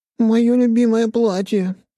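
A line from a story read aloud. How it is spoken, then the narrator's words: Tearless whining, sister. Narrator (Russian): захныкала сестра, но без слез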